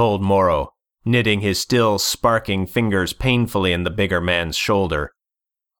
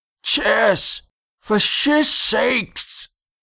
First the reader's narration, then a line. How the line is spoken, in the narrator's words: blew out a snarling breath